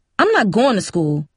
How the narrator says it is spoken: Cindy said firmly

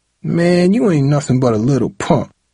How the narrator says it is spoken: Tyree spat

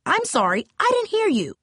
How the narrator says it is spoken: barked the coach

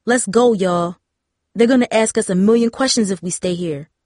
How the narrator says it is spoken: Tara said

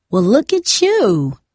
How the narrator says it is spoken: LaSalle exclaimed

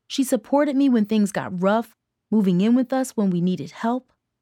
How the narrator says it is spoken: Mom said, her voice growing stronger as she talked

